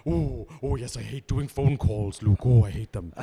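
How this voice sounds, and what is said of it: Deliberately bad impression of someone. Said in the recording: “do a terrible impression of them ... this is a very bad impression”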